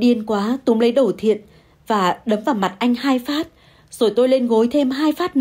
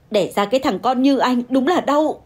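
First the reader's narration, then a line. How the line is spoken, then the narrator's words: Hissing. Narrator (Vietnamese): Tôi rít lên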